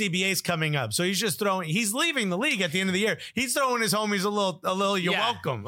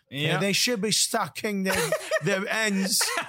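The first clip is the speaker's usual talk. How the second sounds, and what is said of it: Put-on Liverpool accent. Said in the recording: “I hurt my throat... that Liverpool accent can hurt you”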